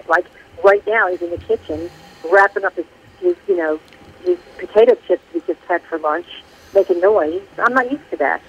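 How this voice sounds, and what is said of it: North Jersey accent. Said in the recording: “I just heard the North Jersey accent there ... I like the Jersey accent”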